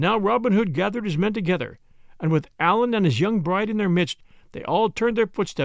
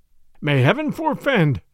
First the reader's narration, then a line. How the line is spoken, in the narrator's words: cried the bishop earnestly